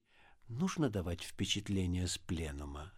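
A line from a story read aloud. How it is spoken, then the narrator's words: Very quiet question. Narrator (Russian): спросил он очень тихо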